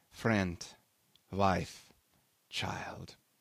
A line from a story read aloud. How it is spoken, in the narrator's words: he said slowly